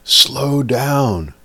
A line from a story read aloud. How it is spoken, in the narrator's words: yelled